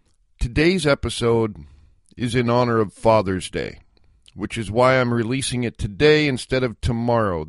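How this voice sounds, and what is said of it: Voice altered by illness. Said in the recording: “my voice sounds a little bit different today, a result of a recent illness”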